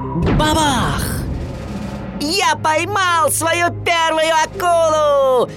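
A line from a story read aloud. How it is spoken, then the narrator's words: Excited shout. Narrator (Russian): возбужденно закричал Уорд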